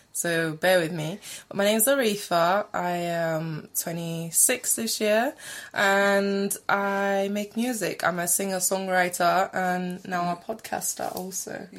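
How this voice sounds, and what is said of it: Slightly sore, rough throat. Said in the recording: “I have a bit of a sore throat.”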